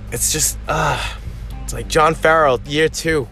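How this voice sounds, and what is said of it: Exaggerated Boston accent. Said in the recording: “am I accentuating my Boston accent right now because I've had a few beers? ... I was just milking my accent a lot just now.”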